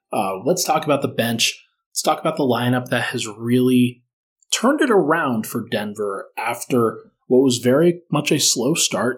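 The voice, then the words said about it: Tired, slightly slurred speech. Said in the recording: “at 1:40 in the morning here. Sorry if I'm slurring my words at this point. I am delirious”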